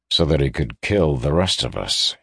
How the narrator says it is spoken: he added dryly

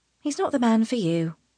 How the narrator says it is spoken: Tana says softly

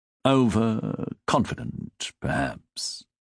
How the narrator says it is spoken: Cecil muttered

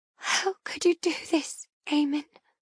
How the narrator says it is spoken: I whisper softly, my heart breaking bit by bit

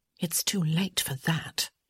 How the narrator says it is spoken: she said under her breath

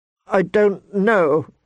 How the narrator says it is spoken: she said tearfully

